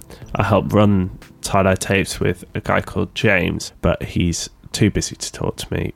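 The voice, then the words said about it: Sheffield English accent. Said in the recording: “based in Sheffield in the UK, if you can tell by my accent.”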